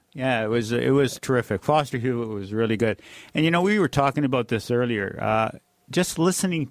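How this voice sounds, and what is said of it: Usual voice. Nothing is said of it.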